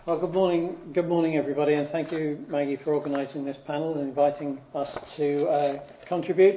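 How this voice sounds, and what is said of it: British accent. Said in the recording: “a nice British accent”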